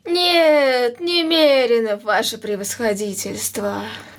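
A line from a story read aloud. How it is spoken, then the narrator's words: Guilty sighing answer. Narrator (Russian): ответил Иван Евсеевич и виновато вздохнул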